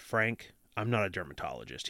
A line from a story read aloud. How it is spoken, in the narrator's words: he said